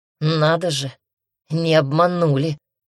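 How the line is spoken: Amused snort. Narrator (Russian): хмыкнул парень

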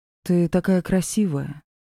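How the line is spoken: Soft, gentle. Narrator (Russian): мягко сказал Ди

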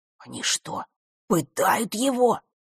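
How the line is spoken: Barely audible whisper. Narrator (Russian): еле слышно прошептал Жаба

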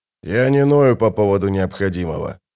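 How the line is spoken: Grumble. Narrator (Russian): буркнул он

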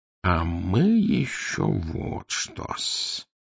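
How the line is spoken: Purring. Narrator (Russian): промурлыкал он

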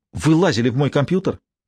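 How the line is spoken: Angry. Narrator (Russian): сердито сказала она

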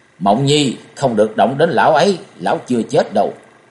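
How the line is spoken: Loud roar. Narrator (Vietnamese): Hàng Mai Cốc Chủ gầm lớn

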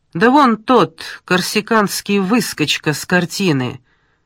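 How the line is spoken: Ordinary tone, forewoman. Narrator (Russian): сказала бригадирша самым обыкновенным тоном

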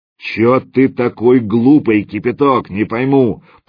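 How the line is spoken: Booming drone. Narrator (Russian): прогудел он

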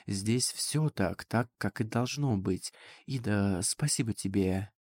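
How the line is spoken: Ghostly whisper. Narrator (Russian): словно призрак шепнул их

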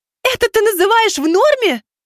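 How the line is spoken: Tearful full-throated scream. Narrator (Russian): Уже во всю мощь своих легких заорала она, а из глаз девушки потекли слезы

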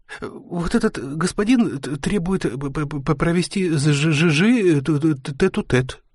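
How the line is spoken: Babbling. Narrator (Russian): пролепетал слуга

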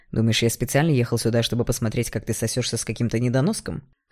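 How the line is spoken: Scoffing snort. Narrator (Russian): Хмыкнул Игнат

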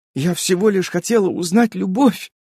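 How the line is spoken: Hysterical sobbing. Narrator (Russian): всхлипывала М, завершая истерику

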